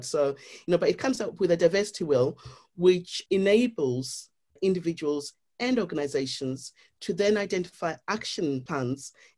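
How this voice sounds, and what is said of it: Zimbabwean accent. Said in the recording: “my Zimbabwean accent coming out”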